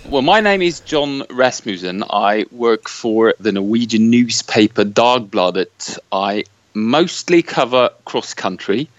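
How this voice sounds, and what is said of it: Proper British accent. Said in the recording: “the proper Brit accent”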